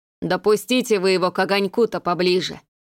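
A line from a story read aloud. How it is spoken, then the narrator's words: Grumbling. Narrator (Russian): проворчал пёсий лекарь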